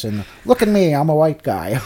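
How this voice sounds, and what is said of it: Stereotypical white guy voice. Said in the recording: “his stupid accent was so fucking good ... He kind of talked really like this”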